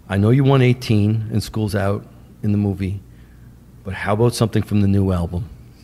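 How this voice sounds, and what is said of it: Deep, calm New York accent. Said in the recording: “he's got a New York accent. He talks like this. ... Very, very deep. ... Very, very calm.”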